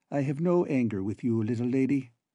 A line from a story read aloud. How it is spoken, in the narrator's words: he answered kindly